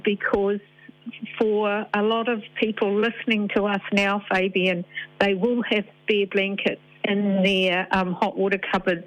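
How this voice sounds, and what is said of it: Upset, emotional voice. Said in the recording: “you can probably hear it in my voice, that really upsets me”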